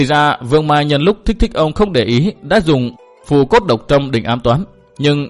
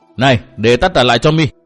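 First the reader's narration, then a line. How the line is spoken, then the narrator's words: Shouting. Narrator (Vietnamese): Thiên Tứ quát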